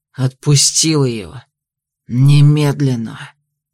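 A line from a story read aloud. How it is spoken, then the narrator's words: Hissing. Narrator (Russian): Прошипел я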